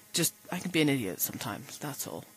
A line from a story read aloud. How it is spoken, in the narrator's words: Rodney muttered